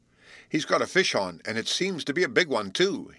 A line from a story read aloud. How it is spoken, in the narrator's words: exclaimed